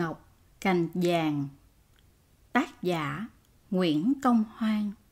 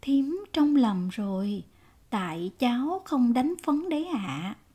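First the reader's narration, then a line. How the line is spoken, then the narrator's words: Smiling reply. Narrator (Vietnamese): mỉm cười đáp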